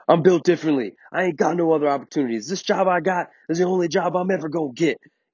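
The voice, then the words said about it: Yelled imitation of another person's voice. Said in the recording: “do my Eric Thomas impression? ... I'm fucking just yelling.”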